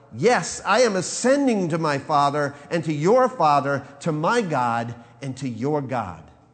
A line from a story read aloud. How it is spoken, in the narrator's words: he cried out